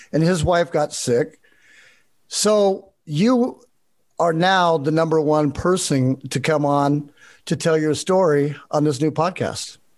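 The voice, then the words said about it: English accent. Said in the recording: “I can listen to your English accent all day.”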